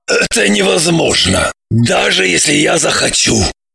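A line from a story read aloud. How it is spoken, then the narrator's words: Calm. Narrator (Russian): устало спокойно сказал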